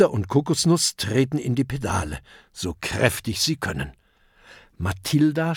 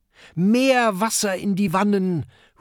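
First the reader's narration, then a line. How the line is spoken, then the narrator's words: Calling out. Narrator (German): ruft Kokosnuss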